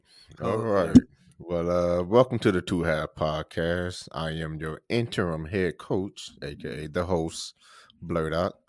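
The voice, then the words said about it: Very deep voice. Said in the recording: “my voice was deep at a very young age ... deeper than everybody else's”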